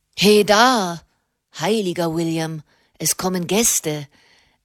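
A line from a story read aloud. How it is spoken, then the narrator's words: Calling in perfect English. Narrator (German): rief eine Stimme in perfektem Englisch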